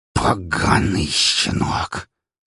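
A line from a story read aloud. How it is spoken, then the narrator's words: Angry hiss. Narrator (Russian): словно раздувшись от злости удав, прошипел Гаврилович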